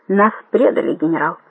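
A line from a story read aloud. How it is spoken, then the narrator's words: Very quiet. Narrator (Russian): очень тихо сказал он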